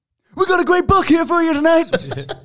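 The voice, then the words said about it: Tony Khan impression. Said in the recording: “Just do your whole thing in the Tony Khan voice ... pretty good. Yeah. Right on the money, that.”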